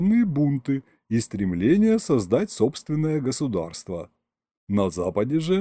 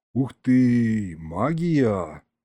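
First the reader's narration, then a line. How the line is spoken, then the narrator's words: Admiring drawl. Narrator (Russian): восхищенно протянул я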